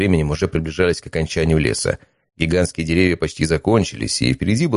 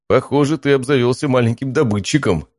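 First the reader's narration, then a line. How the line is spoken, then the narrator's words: Giggling. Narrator (Russian): хихикнул Матвей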